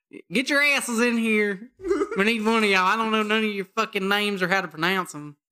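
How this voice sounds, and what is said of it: Exaggerated country accent. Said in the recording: “you went extra on the country accent ... Oh, yeah, absolutely ... I went all Ruth from Ozark on that one”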